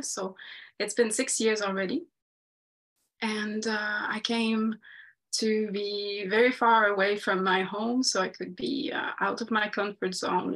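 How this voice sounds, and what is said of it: French Canadian accent. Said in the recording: “I've got an accent, as you might be able to say, to tell. So I'm a French Canadian from Quebec”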